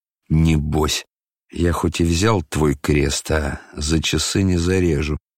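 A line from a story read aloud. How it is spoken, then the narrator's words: Indistinct mutter, strange laugh. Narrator (Russian): невнятно пробормотал он, как-то странно вдруг засмеявшись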